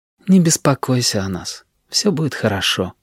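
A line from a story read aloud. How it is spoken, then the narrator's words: Quiet. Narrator (Russian): Джулия негромко сказала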